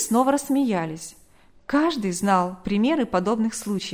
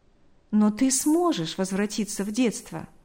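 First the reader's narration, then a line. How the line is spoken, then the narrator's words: Smiling. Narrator (Russian): улыбнулся он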